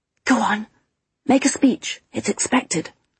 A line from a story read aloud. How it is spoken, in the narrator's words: I whispered